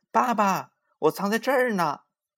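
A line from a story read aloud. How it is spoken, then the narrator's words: Impatient loud shout. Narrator (Chinese): 玲玲等急了，就大声的喊起来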